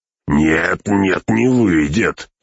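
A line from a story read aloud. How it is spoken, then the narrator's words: Barking. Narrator (Russian): рявкнул погонщик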